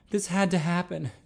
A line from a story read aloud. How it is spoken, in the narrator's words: Jerry breathed